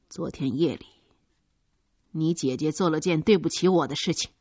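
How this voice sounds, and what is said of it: Low, unnatural-sounding voice. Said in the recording (Chinese): “用低沉的、极不自然的声音说道”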